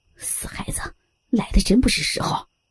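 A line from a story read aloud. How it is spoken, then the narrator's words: Displeased grumbling. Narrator (Chinese): 来福一脸的不悦，嘟囔着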